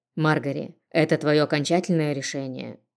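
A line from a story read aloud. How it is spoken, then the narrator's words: Calm clarifying. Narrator (Russian): спокойно уточнил отец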